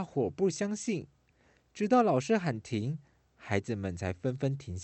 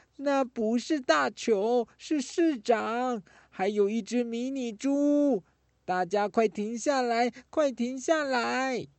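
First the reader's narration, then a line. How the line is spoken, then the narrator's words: Desperate shouting. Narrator (Chinese): 丁丁一家拼命地对他们喊着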